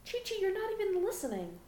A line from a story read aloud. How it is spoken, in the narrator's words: Bulma cried out in exasperation